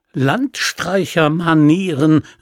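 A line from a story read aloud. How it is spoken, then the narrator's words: Called out. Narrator (German): rief er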